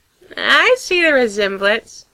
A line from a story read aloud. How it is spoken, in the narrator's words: continues on laughing